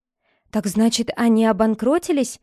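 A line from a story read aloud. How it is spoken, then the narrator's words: Exclaiming. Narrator (Russian): воскликнула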